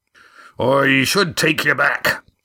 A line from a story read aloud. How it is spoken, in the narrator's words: said Roaring Jack slowly, choosing his way amongst impossible alternatives